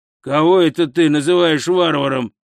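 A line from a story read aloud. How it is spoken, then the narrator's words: Growling. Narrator (Russian): прорычал Хрун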